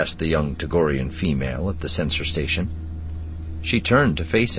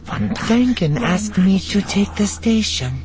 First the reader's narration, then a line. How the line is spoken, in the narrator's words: she said, her mewling Tagorian speech as purringly feline as her appearance